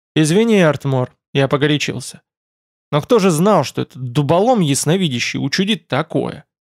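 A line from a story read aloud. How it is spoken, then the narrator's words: Sigh. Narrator (Russian): Вздохнул белогривый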